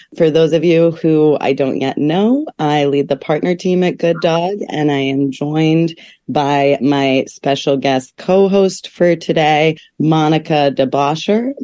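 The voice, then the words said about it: Slightly rough, hoarse voice. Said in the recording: “my voice is a little rough. I'm getting over a cold”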